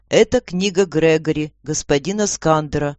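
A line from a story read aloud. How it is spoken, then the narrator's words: Calm. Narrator (Russian): ответил он спокойно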